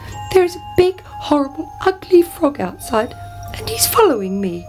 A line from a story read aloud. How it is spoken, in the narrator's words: cried the princess